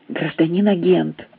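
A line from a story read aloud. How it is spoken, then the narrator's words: Eager whisper, elderly man. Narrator (Russian): зашептал пожилой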